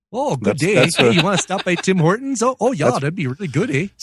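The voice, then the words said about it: Put-on Canadian accent. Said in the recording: “they're speaking Canadian.”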